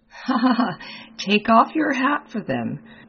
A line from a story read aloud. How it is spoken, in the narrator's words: said the latter, laughing